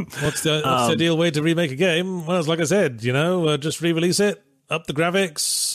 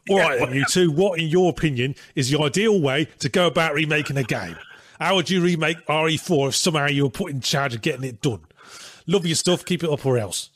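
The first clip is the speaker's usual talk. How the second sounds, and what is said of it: Inconsistent put-on Cockney accent. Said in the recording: “I'm just naturally doing this in a Cockney accent ... Man, that accent went all over the place by the end ... it felt very abrasive at the start”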